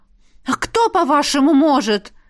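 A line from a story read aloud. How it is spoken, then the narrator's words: Angry blurt. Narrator (Russian): Зло выпалила я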